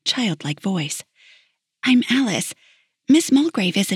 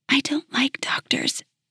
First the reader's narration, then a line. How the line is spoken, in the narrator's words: she whispered